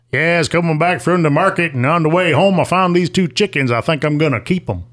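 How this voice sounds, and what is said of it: Put-on Southern US accent. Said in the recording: “if I say that with a Southern accent”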